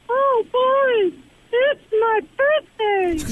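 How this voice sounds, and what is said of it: Imitates Mickey Mouse's voice. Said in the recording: “your best Mickey Mouse impression”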